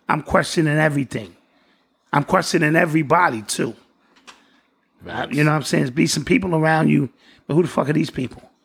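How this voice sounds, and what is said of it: Hoarse, fading voice. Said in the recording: “Excuse my voice. I know I'm losing it.”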